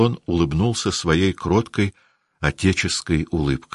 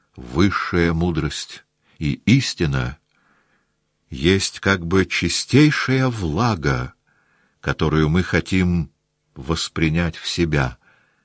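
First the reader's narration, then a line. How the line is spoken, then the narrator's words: Plain. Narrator (Russian): сказал он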